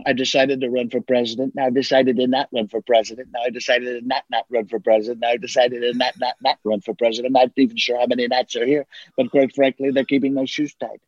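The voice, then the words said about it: Donald Trump impression. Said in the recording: “do a Trump impression ... I've been doing that for 20 years ... oh, that's pretty good”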